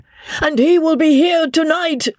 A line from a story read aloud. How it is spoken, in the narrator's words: shrieked Isidore to his master